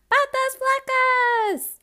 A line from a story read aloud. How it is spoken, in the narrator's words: Artemisa screeched, as if calling someone skinny legs was the funniest insult in the world